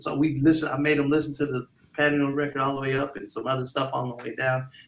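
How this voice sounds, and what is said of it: Usual voice. Nothing is said of it.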